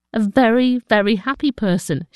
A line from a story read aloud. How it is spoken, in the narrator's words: she says